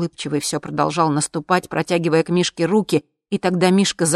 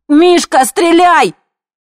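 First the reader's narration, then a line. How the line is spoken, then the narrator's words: Shout. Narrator (Russian): я крикнула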